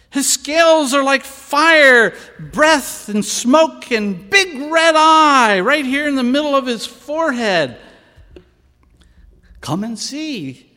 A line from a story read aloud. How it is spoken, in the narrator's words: yelled